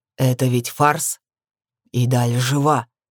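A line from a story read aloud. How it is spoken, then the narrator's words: Growl in the face. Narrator (Russian): прорычал мне в лицо Джибриэль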